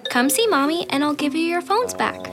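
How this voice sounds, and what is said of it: Put-on mom voice. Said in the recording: “do you have a mom voice in you?”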